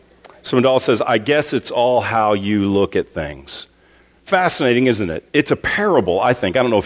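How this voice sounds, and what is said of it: Usual voice. Nothing is said of it.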